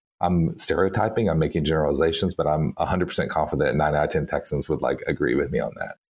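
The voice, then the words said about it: Texan accent. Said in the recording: “you can hear from my accent, I was born and lived many years in Texas”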